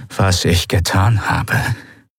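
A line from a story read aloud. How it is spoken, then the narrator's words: Rough-voiced explanation. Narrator (German): erklärte Monaro mit rauer Stimme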